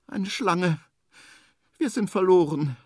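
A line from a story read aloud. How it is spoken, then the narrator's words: Thin sad voice. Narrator (German): sagt Henry mit dünner Stimme, und traurig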